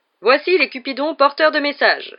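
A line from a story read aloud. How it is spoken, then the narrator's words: Cheerful announcement. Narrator (French): annonça Lockhart d'un ton réjoui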